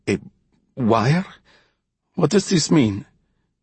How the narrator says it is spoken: His voice cracked as he spoke

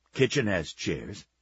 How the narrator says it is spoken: said gruffly

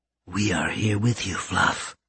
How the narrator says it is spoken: Karen whispered in her ear

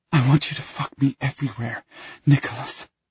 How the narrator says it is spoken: she pants

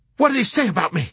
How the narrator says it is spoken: he demanded excitedly in a fervor of proud and blissful anticipation

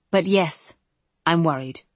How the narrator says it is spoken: says, and his tone is serious

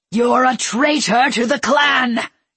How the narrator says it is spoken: he roared

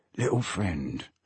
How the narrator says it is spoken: whispered Alf, his tone urgent now

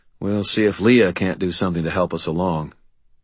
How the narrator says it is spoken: I grunted, then I said

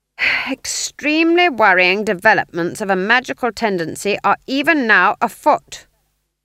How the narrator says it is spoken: she said loudly

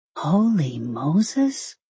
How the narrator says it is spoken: Susan breathed

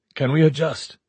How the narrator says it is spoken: Merman asked tightly

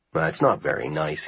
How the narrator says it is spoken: he mumbled

